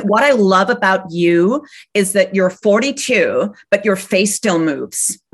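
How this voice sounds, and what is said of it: Slightly dodgy put-on American accent. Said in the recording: “I'm going to do a slightly dodgy American accent now.”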